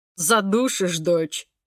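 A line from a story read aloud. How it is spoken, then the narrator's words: Father's amused snort. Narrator (Russian): хмыкнул папа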